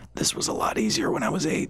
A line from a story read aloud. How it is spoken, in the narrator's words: he wheezed